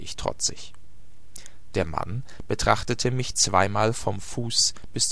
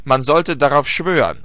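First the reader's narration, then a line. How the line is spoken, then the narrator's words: Calling out. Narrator (German): rief er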